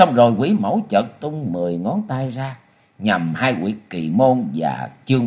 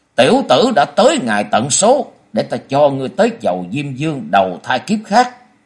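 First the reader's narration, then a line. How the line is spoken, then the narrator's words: Eerie laugh, then loud shout. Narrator (Vietnamese): cười dài một tiếng, nghe thật là rùng rợn, rồi quát to lên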